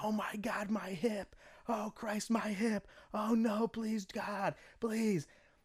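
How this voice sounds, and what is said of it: Screaming in pain. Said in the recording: “he's screaming. He's going ... And he's screaming.”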